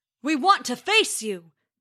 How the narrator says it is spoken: bellowed Thor

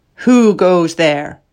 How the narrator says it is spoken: said in a strong voice

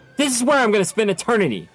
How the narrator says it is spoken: he screamed at her

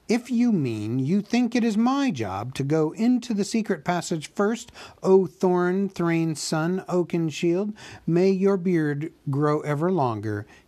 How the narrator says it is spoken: he said crossly

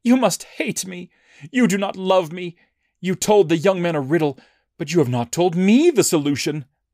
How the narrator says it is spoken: Samson's bride cried on his shoulder and said

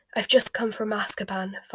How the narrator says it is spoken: Fudge had panted

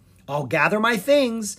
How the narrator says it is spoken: the bard said cheerfully

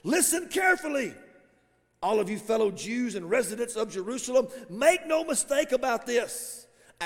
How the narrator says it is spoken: shouted to the crowd, not quietly, shouted

